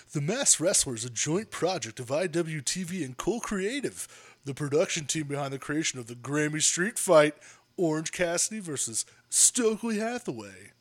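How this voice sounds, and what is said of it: Announcer-style advertisement voice. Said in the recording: “in my advertisement voice”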